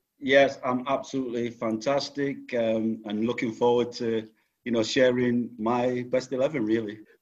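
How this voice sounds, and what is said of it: Northern English accent. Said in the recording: “you'll tell by his accent, spent a bit more time up north than down south”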